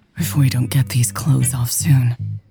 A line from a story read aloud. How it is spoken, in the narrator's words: Lex panted